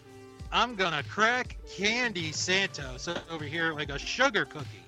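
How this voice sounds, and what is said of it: Generic put-on character voice. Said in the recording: “Do a generic voice”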